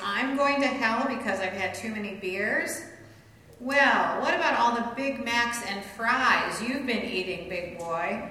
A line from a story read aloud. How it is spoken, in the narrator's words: he asked as he poked at the man's big belly and laughed smugly